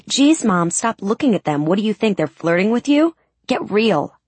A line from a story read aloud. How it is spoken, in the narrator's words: my 15-year-old daughter snapped